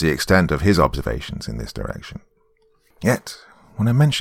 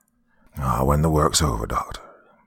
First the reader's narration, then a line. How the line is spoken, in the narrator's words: he said